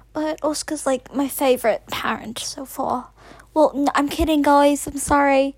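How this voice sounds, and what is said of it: Put-on British accent. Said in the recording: “why is ... talking in a British accent? ... I've decided to speak in a British accent because he's never heard my real voice”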